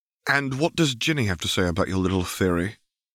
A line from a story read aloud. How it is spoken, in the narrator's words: Hermione sighed